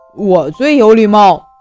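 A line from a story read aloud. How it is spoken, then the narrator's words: Loud shout. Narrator (Chinese): 大声叫道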